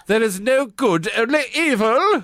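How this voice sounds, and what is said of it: Posh English actor voice. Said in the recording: “You sound like just like a posh English actor. ... doing an impression of Ray Fiennes”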